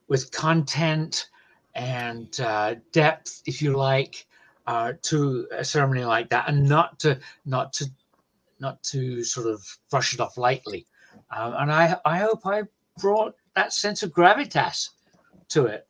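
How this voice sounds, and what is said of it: British accent. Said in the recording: “Is your accent an Iowan accent? ... Is a little hint of Iowan in you? ... No, sir. I am a Brit.”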